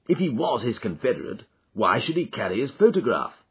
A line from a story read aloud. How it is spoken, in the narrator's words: I asked